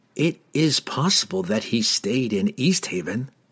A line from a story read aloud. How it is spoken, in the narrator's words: Glensather replied in the same whispered tones